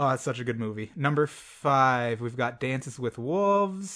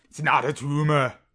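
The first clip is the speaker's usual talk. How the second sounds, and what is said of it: Imitating Arnold Schwarzenegger. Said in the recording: “an Arnold impression ... Ours both had certain aspects of Arnold, but generally missed the mark.”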